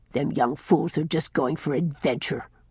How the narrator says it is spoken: growled Nathan Crawford

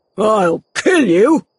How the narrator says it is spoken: cried Boldwood

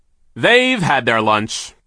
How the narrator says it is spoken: came a booming voice

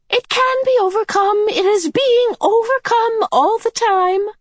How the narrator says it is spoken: the medium cried, smiling happily

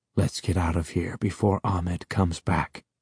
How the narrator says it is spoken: he whispered

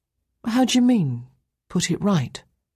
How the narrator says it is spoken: His voice was gentle, full of childlike curiosity

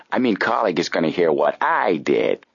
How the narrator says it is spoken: the detective chuckled

